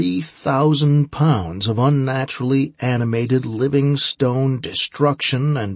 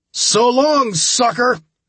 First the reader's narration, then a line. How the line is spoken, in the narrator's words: I shouted